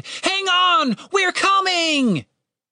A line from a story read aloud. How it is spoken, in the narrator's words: Catherine screamed